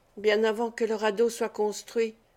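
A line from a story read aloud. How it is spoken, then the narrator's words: Murmured. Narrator (French): murmura-t-il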